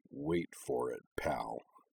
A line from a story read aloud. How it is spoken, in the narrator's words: she muttered, her voice a sort of low, happy growl